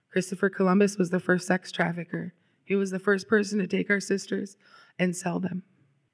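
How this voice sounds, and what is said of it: Emotional, strained voice. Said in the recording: “getting a little emotional.”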